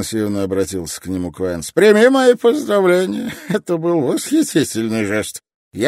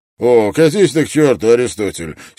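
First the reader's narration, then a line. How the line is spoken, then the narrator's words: Angry retort. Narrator (Russian): сердито бросил Строн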